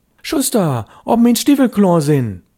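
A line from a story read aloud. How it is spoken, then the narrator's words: Calling louder. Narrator (German): Störtebecker rief schon lauter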